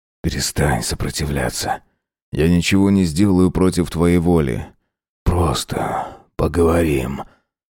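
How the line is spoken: Hot whisper in ear. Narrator (Russian): зашептал жарко на ухо

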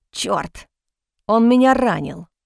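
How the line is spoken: Through gritted teeth, pained. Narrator (Russian): Процедил Коултер, стиснув зубы от боли

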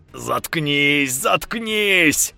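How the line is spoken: Tearful angry frightened yelling. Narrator (Russian): орал Степан, заливаясь слезами злости и страха

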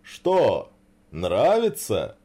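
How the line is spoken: Cheerful question. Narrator (Russian): весело спросил Мороз Иванович

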